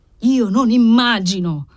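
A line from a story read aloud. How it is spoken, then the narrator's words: Shouting. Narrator (Italian): gridò lui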